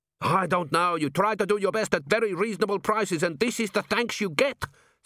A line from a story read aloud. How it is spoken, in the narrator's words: said Gimlet hotly